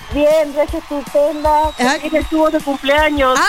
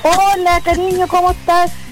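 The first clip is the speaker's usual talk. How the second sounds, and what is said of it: Put-on little girl voice. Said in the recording (Spanish): “la voz de niñita que te salió, estáis fingiendo”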